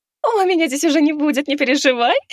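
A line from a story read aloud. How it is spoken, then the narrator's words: Woman laughing. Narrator (Russian): рассмеялась женщина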